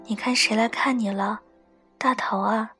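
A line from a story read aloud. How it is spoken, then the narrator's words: Soft, gentle voice. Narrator (Chinese): 李子一脸温柔地……小声说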